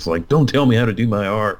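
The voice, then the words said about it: Unidentified put-on accent. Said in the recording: “I don't know why I did that accent. I don't even know what accent that was.”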